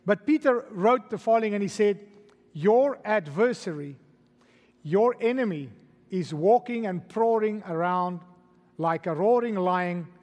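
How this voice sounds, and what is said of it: Non-American English accent. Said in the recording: “my accent ... he speaks English, not Americanish, and we speak Americanish ... so that you can follow my accent”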